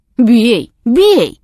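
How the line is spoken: Fierce voice. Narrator (Russian): подхватил мужик свирепым голосом

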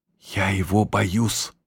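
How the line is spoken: Whispered. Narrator (Russian): шепнула она мужу

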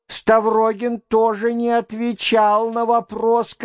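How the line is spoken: Shouting. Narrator (Russian): крикнула студентка

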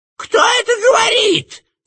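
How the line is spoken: Shouted. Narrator (Russian): закричал Варенуха

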